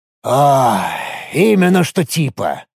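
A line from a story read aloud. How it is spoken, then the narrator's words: Sighing. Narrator (Russian): вздохнул Рифат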